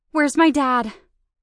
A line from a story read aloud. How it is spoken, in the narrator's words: I panted, grinning wildly